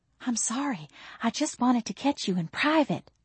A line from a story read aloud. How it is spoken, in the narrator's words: whispered